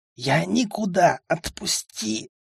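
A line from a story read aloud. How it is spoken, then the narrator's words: Near-silent wheeze. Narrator (Russian): почти беззвучно просипел я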